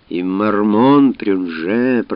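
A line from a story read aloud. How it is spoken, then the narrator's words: Grumbling. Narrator (Russian): проворчал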